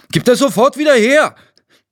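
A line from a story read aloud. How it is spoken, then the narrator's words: Called out. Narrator (German): rief Tino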